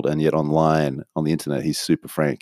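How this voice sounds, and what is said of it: Put-on American accent. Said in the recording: “that was my American accent again”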